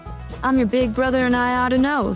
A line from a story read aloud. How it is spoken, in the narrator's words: snapped the cowpoke